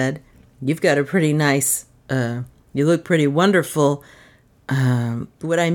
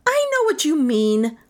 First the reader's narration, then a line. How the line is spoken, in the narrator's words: Melissa spat